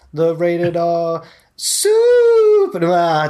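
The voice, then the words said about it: Higher-pitched ring announcer impression. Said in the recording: “can you do that voice ... You got a higher voice than me ... that was a bit more Kip Sabian”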